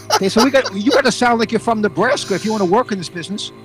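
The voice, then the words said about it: New York accent. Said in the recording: “my natural accent ... Classic New York broadcaster”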